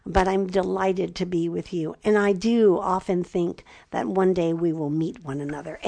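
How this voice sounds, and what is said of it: Raspy voice. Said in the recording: “my raspy voice”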